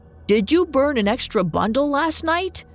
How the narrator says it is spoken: he called out to her

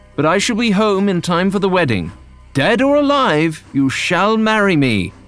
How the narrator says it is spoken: John shouted as the train moved forward

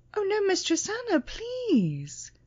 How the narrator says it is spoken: pleaded Christine

